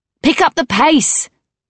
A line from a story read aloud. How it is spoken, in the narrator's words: Arthi shouted